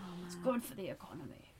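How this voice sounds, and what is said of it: Margaret Thatcher impression. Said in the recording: “my great Margaret Thatcher impression”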